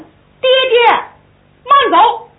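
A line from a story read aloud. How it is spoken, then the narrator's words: Sudden call. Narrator (Chinese): 突然有人喊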